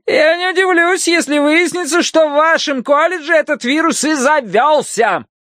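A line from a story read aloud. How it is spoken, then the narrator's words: Shouted after them. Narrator (Russian): крикнула им вдогонку миссис Гадсон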